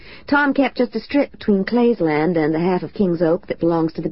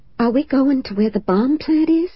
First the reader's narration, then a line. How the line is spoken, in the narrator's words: Hillary breathed